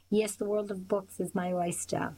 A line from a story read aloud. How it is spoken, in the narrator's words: Will laughed